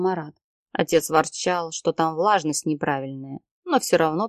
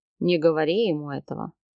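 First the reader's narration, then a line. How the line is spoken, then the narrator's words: Snort. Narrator (Russian): хмыкнул Марат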